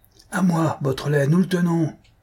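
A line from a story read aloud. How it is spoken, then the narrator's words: Yelling. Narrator (French): vociféra Ganimard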